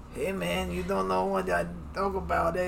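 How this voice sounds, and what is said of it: Bad put-on Mexican accent. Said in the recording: “Let's not do that accent. ... That's not even a good Mexican accent. ... You're a very bad cholo. ... Daddy's very bad at accents.”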